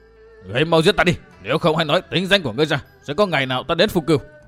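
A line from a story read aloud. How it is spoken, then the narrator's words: Sudden fiery shout. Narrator (Vietnamese): Bạc Thuần Dương tinh khí nóng như lửa, đột nhiên quát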